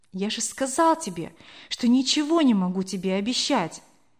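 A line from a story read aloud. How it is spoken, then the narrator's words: Soft, trembling reply. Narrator (Russian): мягко ответил Кор, дрожа всем телом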